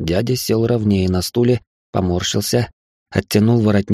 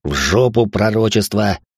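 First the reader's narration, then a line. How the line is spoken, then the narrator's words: Growled. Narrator (Russian): рыкнул Райнхард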